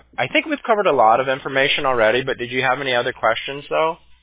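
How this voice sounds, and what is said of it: Voice sounds sick, different from usual. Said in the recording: “I sound different ... I'm still a little sick ... You might be wondering why I sound a little bit different”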